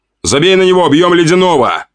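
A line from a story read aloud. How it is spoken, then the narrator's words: Shouting while charging. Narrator (Russian): крикнул девушке, несясь на этого урода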